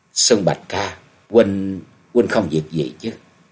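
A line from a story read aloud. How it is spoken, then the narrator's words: Trembling female voice. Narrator (Vietnamese): Giọng của nàng run run nói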